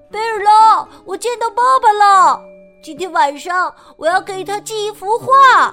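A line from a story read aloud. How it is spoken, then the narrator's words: Shouting while running. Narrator (Chinese): 布朗一边跑一边喊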